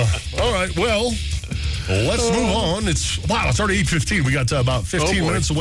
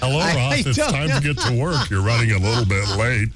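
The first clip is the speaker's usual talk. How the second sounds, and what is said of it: Silly put-on robotic car voice. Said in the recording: “stupid voice”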